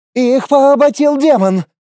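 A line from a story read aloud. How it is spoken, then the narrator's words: Frightened elf's yell. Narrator (Russian): заорал испуганный эльф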